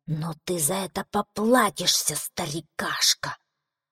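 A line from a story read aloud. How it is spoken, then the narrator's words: Hissing. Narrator (Russian): прошипел он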